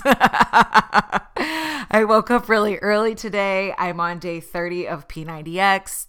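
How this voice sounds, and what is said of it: Slightly deep radio-like voice. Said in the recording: “I almost have a little bit of a radio voice”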